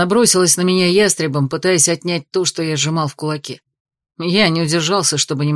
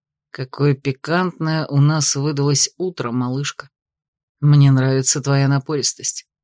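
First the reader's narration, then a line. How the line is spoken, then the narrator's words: Whisper in ear. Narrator (Russian): шепнул на ухо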